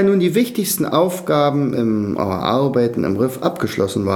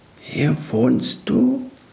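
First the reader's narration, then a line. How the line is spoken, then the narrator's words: Hoarse question. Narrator (German): fragte Tröpfchen heiser und musste niesen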